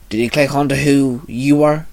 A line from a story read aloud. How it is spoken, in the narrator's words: Shinzo asked